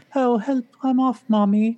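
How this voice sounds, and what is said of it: Put-on British accent. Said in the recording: “Why he has like a British accent”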